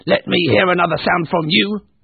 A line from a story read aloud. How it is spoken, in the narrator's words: barked Scrooge to his clerk